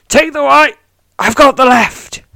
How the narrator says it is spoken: shouts Alaina

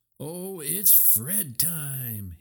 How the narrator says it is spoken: he howled

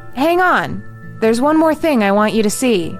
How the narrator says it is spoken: he called out

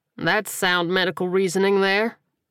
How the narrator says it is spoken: the sniper replied, chuckling

